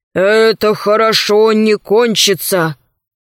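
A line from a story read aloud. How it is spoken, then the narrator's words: Gloomy repetition. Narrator (Russian): механик Зеленый мрачно повторяет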